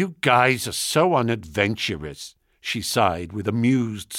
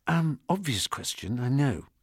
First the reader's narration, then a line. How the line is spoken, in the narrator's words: I whispered